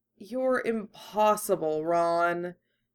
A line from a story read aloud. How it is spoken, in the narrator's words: Hermione sighed